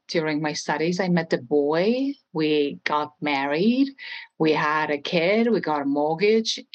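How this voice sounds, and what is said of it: Estonian accent in English. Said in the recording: “I don't know if you could tell ... by my accent, but I am not from the United States. I am from a small country in Europe, Estonia.”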